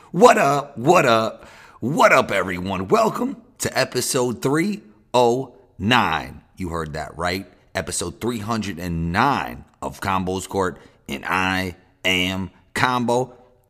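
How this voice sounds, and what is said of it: Slightly hoarse voice. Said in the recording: “Voice a little hoarse”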